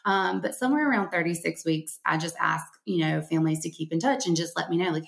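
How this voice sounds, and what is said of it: Southern Alabama accent. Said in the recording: “Around here in Alabama, in case you can't tell from my accent”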